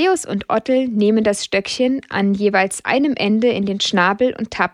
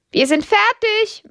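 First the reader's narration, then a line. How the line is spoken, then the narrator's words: Calling out. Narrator (German): ruft Lydia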